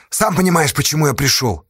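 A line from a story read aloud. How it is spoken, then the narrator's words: Snapped. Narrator (Russian): огрызнулся Асташа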